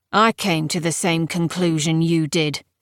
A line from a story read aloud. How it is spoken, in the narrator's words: said Palamedes, but his voice was cold and inflexible